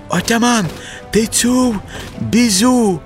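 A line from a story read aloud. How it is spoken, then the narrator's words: Shout. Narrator (Ukrainian): крикнув Ходя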